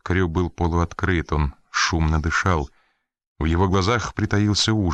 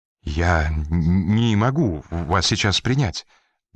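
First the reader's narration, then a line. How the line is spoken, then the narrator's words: Trembling voice. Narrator (Russian): дрожащим голосом проговорил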